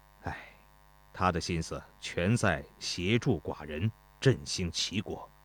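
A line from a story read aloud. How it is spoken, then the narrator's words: Soft sigh. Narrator (Chinese): 齐宣王轻轻叹了口气说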